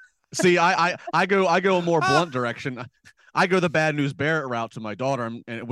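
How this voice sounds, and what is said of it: Usual voice. Nothing is said of it.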